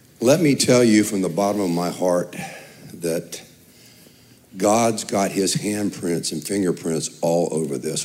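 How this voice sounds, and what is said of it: Slightly raspy, hoarse voice. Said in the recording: “I've got a little bit of a raspy voice”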